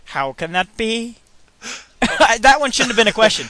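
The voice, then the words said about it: Bad put-on accent, rising question intonation. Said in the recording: “now I'm doing a crappy accent ... somehow all your sentences are questions”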